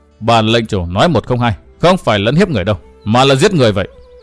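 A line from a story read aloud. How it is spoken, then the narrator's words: Cold. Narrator (Vietnamese): Văn Thiên Hạo nói lạnh lùng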